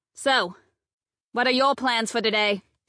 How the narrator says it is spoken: she asked, raising her voice to be heard over the thumping beat from the stereo

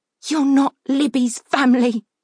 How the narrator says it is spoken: Leah spat, roused to fury by her fear

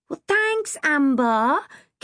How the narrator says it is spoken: Kim wailed

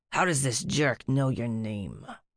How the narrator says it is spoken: Rumpus growled

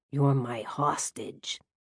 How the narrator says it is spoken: he said in a sinister voice

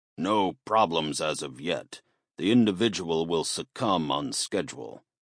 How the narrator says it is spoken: the figure answered in a gruff voice that sounded like it had been through quite a lot over the years

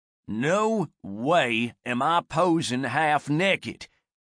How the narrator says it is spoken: growled her male companion

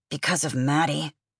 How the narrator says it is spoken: Gideon muttered

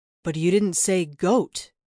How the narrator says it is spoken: said the deer, his voice a smooth baritone

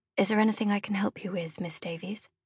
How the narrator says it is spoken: a thin man asked quietly

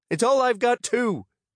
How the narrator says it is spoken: she snapped

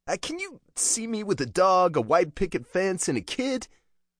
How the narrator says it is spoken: Penelope had piped up

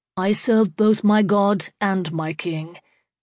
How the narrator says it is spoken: Becket said evenly

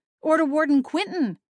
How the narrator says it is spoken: I cried

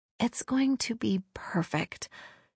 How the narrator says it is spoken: she whispered to Maya

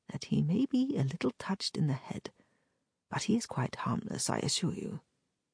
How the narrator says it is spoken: added, his voice falling to a whisper

